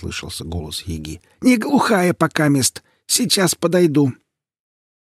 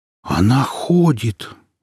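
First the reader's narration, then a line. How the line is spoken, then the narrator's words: Man breathing out. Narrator (Russian): выдохнул мужчина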